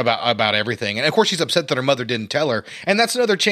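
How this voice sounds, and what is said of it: Usual voice. Nothing is said of it.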